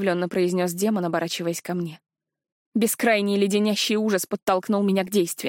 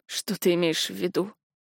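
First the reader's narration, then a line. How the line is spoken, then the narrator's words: Hoarse rasp. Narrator (Russian): прохрипел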